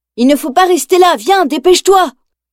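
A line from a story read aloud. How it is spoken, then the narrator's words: Boy shouting while fleeing. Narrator (French): crie le garçon en s'enfuyant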